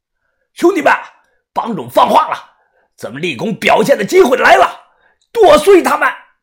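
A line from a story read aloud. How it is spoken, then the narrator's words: Sudden loud shout. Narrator (Chinese): 突然，只听体育馆门口啊，这边宁波人大喊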